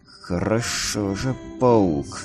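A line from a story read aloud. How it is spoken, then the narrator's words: Growling. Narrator (Russian): зарычал перекошенный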